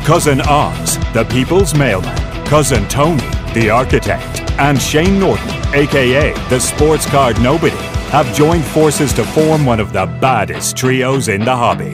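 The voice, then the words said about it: Exaggerated deep announcer voice. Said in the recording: “Deep Voice Guy”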